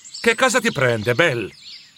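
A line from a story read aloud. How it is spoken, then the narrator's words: Annoyed question. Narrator (Italian): chiese il giovane Scrooge con tono indispettito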